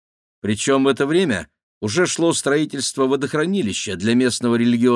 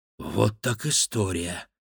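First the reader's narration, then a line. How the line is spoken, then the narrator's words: Intrigued breathy exclamation. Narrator (Russian): заинтригованно выдохнул Максим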